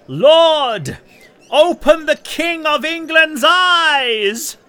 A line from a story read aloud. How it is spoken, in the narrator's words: he cried loudly